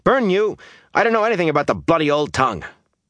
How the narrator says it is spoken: he snapped

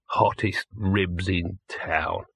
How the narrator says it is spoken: he muttered

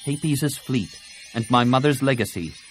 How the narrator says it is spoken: Tenel Ka said curtly

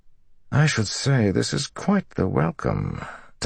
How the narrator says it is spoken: Talmanis muttered

